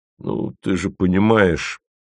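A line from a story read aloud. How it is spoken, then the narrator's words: Ashamed mumbling. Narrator (Russian): мямлет Пармезан, потому что ему стыдно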